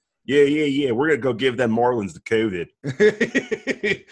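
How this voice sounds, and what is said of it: Put-on Philadelphia accent. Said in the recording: “Great, great Philly accent... Great Philly accent.”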